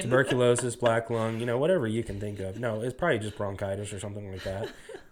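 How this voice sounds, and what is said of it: Quiet, raspy, congested voice. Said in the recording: “tell by my voice right now, A, it's not very loud. B, it's kind of raspy and very congested. I have been sick for the last week”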